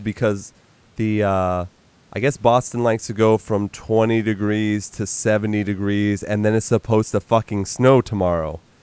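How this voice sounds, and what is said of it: Slightly sick, congested voice. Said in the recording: “I'm sure the audience can hear me a little bit. I am getting over a cold”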